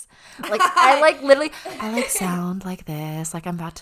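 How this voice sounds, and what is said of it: Soft, put-on spa radio voice. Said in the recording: “I like have this weird voice. ... She's like a spa radio person. Like, you hear her at the spa. ... it's not my real voice.”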